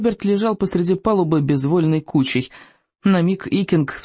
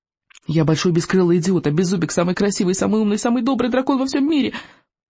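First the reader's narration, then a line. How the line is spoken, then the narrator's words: Rapid patter. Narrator (Russian): протараторил Икинг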